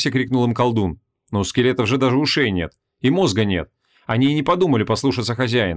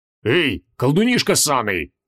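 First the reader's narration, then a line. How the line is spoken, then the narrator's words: Bark. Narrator (Russian): рявкнул паладин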